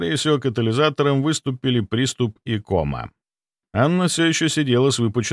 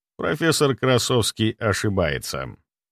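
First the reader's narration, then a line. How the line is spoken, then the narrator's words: Calm reply. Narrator (Russian): спокойно ответил я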